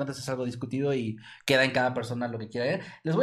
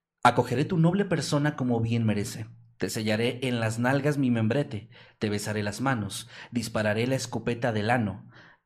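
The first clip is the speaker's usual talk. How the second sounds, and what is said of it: Dramatic narrator voice. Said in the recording (Spanish): “voz de narrador, güey. ... Con voz de narrador.”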